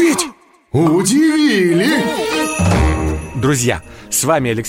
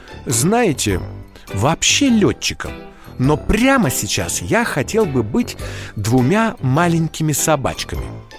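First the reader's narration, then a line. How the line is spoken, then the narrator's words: Thoughtful. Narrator (Russian): задумчиво сказал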